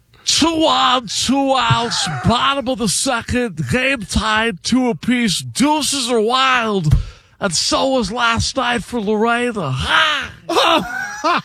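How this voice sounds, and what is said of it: Imitates another person's voice. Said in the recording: “Do the Harry Carey real quick. ... Let's do the impersonation. No, the impersonation is the best.”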